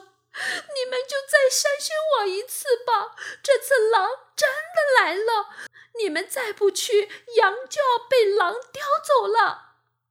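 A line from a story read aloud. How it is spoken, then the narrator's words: Anxious boy crying. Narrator (Chinese): 小男孩着急地大哭起来，边哭边说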